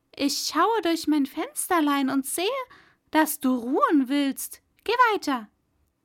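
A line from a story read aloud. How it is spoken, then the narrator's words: Bride calling out. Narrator (German): die Braut rief ihm das zu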